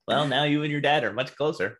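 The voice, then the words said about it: Imitates another person's voice. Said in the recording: “Is that your impersonation of me? ... that's how you sound in my head.”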